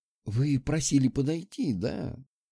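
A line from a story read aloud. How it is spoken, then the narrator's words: Quiet, fawning, smiling. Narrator (Russian): Тихо сказала она, улыбаясь как дурочка и заискивающе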